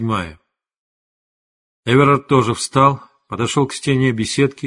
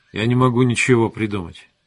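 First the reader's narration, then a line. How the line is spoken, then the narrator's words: Plain. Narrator (Russian): ответил он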